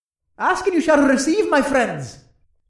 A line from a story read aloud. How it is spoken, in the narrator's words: Tyrion chuckled